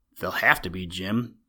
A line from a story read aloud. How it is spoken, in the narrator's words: Rob answered grimly